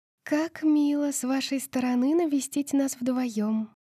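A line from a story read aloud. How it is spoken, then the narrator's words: Sweet cooing voice. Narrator (Russian): проворковала мама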